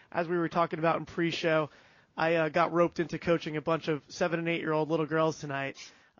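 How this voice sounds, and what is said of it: Gravelly voice. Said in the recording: “I hope my voice isn't too gravelly tonight.”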